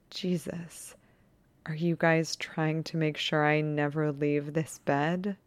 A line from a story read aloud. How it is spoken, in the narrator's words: He laughs softly and says